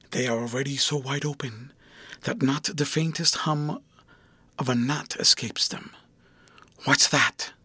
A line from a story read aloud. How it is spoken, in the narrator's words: René answered also in a whisper